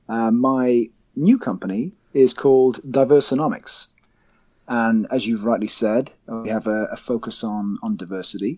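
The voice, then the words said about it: British accent. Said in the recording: “as you can probably guess by my accent, I am not based in the US. I am based over here in the UK.”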